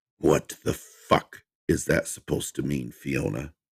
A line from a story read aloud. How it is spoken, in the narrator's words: He drew out her name with a menacing growl in his voice